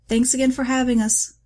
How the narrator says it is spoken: George called out

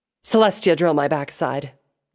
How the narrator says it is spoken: Night Cantor grunted

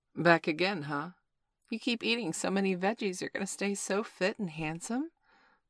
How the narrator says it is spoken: purred the mature Latina produce clerk

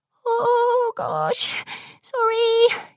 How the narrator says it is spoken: she whimpered

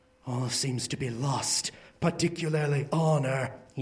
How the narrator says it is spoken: he murmured

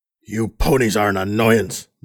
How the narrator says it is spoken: the voice growled

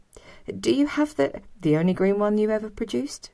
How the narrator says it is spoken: I spluttered

